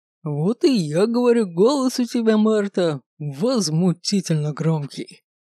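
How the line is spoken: Village elder chuckling. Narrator (Russian): Хохотнул староста

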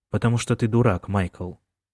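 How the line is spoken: Calm. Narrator (Russian): спокойно сказал Колин

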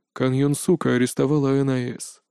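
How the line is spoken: Man's muffled reply. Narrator (Russian): глухо ответил мужчина

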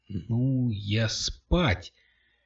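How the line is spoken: Surprised drawl. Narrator (Russian): удивленно протянул он

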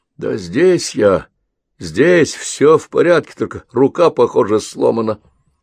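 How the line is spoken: Weak, distant voice. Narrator (Russian): Слабым голосом ответил Зейн откуда-то из глубины отсека

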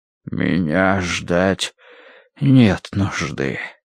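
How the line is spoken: Breathed out. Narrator (Russian): выдохнул Рош

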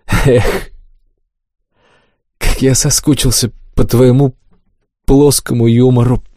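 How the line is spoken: Mock sigh. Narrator (Russian): притворно вздохнул умник

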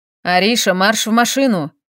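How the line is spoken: Man barking. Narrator (Russian): рявкнул мужчина

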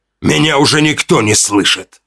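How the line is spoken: Growl. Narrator (Russian): Прорычал он в тишине

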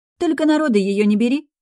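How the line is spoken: Snorting remark. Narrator (Russian): хмыкнула сестра

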